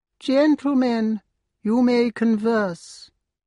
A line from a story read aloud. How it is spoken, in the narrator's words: great peregrine falcon said, in a high nasal voice which came from her aristocratic nose